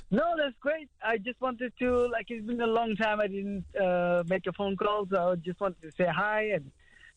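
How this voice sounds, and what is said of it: Foreign accent, not Birmingham. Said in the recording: “that's not a Birmingham accent you have. What is that accent?”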